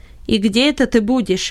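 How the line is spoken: Sharp question. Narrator (Russian): резко спросил Беннет

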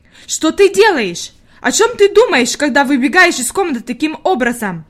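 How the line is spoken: Shouting. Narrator (Russian): закричала Фрейлин Нортенмайер

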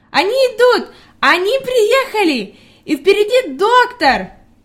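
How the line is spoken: Girl shouting joyfully. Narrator (Russian): Девочка радостно кричала

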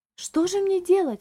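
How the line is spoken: Agitated exclamation. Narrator (Russian): взволнованно воскликнула дама

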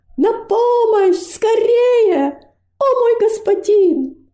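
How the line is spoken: Full-force shout. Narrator (Russian): Робость изо всех сил закричала

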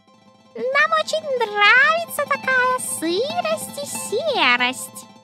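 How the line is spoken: Thin squeaky voices. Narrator (Russian): запищали они тонкими голосками

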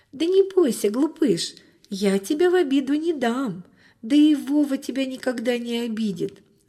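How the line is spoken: Laughing, soothing girl. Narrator (Russian): засмеялась девочка, успокаивая питомца

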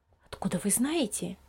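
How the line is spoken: Half-voiced question. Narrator (Russian): вполголоса спросила мама Лиза

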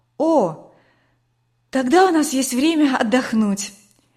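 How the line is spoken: Relieved sigh. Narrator (Russian): облегченно вздохнула Катя

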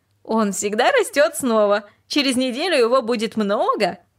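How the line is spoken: Laughing. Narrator (Russian): рассмеялась и сказала

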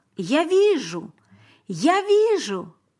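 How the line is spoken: Shouting. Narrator (Russian): Теперь он кричал

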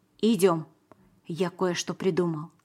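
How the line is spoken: Quick whisper. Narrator (Russian): быстро прошептал я

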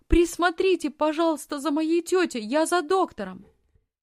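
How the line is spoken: Shouted. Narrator (Russian): крикнула фрау Зайлер

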